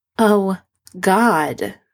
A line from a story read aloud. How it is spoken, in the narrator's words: Sydney groans